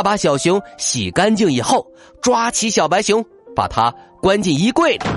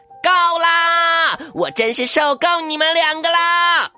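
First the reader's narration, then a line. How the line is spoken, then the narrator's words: Furious shout. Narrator (Chinese): 艾丽气得头发都竖了起来，她大声喊道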